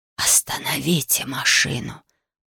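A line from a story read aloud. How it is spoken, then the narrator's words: Whispered. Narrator (Russian): прошептал дух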